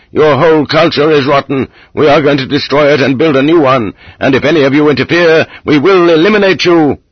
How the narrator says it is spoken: Getting wilder and wilder, screamed

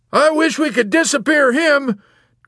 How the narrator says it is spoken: Colonel Cathcart blurted out peevishly

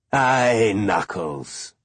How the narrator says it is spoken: he said with a chuckle

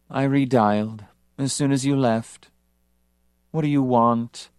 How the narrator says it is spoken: Her voice sank into a dreary drone of despond

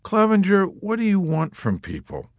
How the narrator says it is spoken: Dunbar had replied wearily above the noises of the officers' club

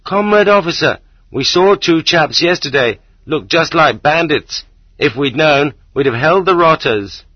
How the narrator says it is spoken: The ordinary working man, the man with the bad leg, suddenly remembers and shouts after me

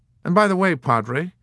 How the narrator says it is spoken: he warned coldly

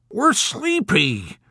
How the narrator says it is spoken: Orr whined

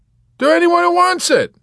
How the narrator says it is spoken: Yossarian shouted back

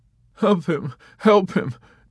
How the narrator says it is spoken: Dobbs sobbed

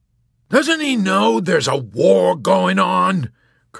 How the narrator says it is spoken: Colonel Cathcart yelled out suddenly

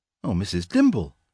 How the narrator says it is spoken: exclaimed Jane

